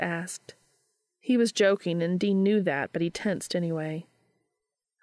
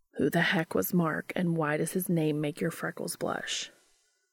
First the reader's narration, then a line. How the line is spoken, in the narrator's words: Dean groaned